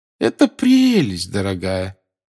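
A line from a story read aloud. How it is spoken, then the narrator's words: Forced cheerful voice. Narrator (Russian): сказала бабушка Невилл наигранно веселым голосом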